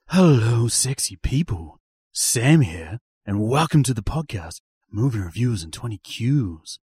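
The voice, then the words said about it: Put-on low seductive bedroom voice. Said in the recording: “I can't keep this up. My voice is about to break ... Is that your bedroom voice”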